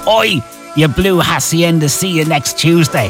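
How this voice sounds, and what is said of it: Put-on Manchester accent. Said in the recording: “It's my best Manchester accent.”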